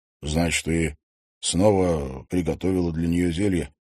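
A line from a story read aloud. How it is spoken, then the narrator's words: Quiet question. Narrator (Russian): тихо спросил Стас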